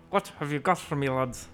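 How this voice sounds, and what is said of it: Gruff Scottish-style dwarf voice. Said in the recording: “Give me your best Scottish dwarvish accent ... Just be gruff ... Just be like a gruff Irish accent then ... Talk out the side of your mouth like Sean Connery”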